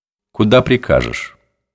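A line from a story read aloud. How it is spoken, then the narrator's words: Quiet question. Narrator (Russian): спросил он негромко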